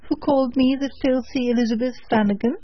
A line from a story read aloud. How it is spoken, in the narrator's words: cried the washerwoman, snapping her fingers contemptuously